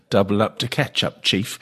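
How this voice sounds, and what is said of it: Put-on English pommy accent. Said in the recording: “you said it in the right accent as well ... it's a very pommy thing”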